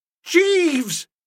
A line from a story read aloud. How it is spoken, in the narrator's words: I said, or perhaps it would be mo juster to say I thundered